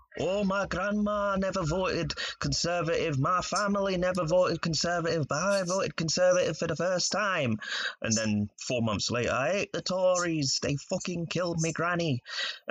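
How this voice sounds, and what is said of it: Put-on northern English accent. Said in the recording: “You sound like someone from Stockport. That's a pretty good accent, man. ... I was trying to go for Yorkshire, but I kind of flopped.”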